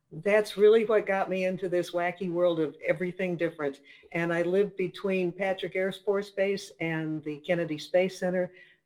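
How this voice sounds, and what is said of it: Slight Minnesota accent. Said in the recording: “I grew up in Minnesota, so there's a little bit of a Minnesota accent”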